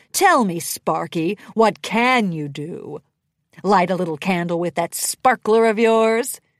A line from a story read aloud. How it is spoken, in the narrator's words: He cackled at his nasty comment as if it were the funniest thing ever uttered